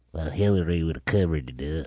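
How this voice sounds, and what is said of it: Nasal hillbilly character voice. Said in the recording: “What is that voice? ... All it's always the hillbillies ... this guy with nasal problems ... He has got ear, nose, and throat issue”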